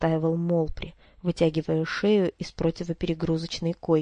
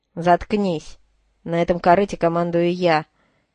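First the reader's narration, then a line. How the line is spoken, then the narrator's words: Angry bark. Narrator (Russian): рявкнул Голд, разозлившись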